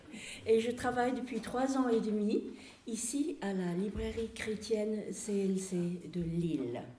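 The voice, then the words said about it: British accent in French. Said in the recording (French): “ça c'est un nom britannique, comme vous pouvez entendre dans mon accent”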